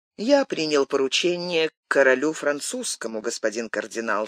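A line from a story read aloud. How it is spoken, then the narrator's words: Calm reply. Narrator (Russian): спокойно отвечал Атос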